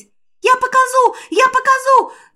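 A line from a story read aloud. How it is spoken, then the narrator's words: Yelling. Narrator (Russian): завопил дух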